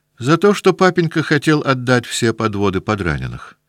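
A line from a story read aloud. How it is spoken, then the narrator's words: Plain. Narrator (Russian): сказал Петя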